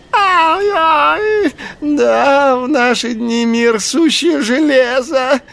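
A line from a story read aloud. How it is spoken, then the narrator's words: Shrill squeal. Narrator (Russian): провизжал шакал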